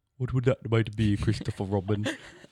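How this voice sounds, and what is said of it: Winnie the Pooh character voice. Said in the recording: “good impression”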